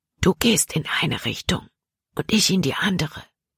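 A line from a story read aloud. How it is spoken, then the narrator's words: Whispered. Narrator (German): flüsterte er Jordan zu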